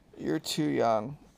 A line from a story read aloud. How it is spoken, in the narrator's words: mumbled Keith